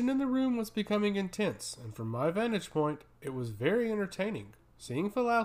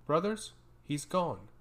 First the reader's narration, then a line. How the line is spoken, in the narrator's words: announced solemnly